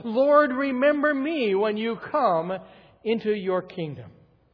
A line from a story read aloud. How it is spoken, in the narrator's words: The repentant thief cried out from the depths of his soul